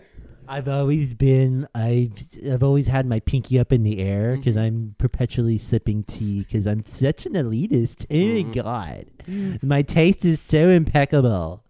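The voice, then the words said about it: Imitates another person's voice. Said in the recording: “my Victor impression right there ... That's a great impression ... Sound like Trump ... I thought it was Trump Jr.”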